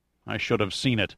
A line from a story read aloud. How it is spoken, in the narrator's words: Pitt murmured bitterly